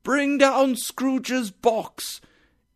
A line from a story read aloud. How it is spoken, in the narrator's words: a hard, loud voice shouted